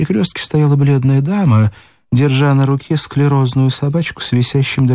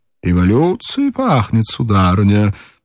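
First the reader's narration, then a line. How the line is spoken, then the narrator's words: Cheerful exclamation. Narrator (Russian): весело, воскликнул господин в харьковой шубе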